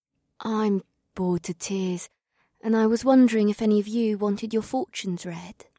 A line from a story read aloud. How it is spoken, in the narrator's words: the beautiful woman asked in a shy voice